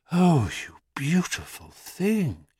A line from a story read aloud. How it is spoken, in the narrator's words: she breathed into its ear